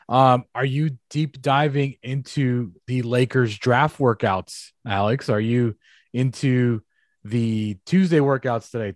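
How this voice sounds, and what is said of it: Rough, off-sounding voice. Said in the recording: “My voice sounds like ass, but I feel normal. So I don't know what's going on with my voice”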